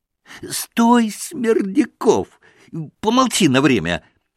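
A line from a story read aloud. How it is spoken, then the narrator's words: Shouted again. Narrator (Russian): крикнул опять Федор Павлович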